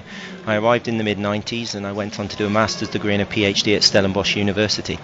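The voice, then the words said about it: English accent. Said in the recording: “As you can probably hear from my accent, I'm English originally”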